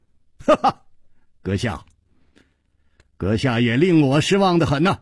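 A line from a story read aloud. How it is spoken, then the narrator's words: Laughing. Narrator (Chinese): 楚留香笑着说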